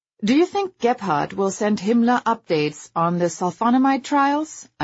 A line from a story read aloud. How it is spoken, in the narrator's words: I asked